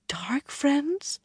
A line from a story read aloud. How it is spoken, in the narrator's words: Lyanna murmured in bewilderment